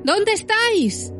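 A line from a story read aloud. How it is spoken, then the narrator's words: Irritated, fearful shout. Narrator (Spanish): gritó de nuevo a la vez irritado y temeroso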